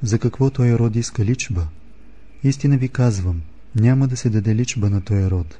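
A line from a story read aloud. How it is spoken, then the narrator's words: Deep sigh, then speaking. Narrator (Bulgarian): въздъхна дълбоко и рече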